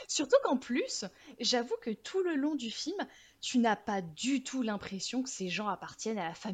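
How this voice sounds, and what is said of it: Usual voice. Nothing is said of it.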